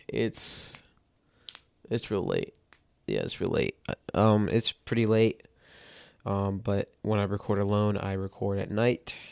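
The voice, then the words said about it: Slightly cracked, tired voice. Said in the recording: “My voice is a little cracked. I don't know. It's on and off right now.”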